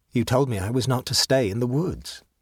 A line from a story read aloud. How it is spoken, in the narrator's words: said the boy calmly